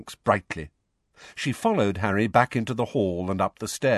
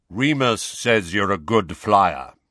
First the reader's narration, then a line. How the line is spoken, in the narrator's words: said Kingsley Shacklebolt in his deep voice